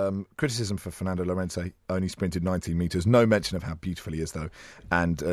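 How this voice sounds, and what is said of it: Usual voice. Nothing is said of it.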